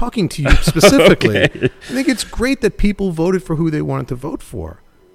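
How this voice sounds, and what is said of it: Usual voice. Nothing is said of it.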